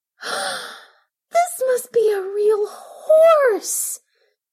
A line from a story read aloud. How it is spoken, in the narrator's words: she gasped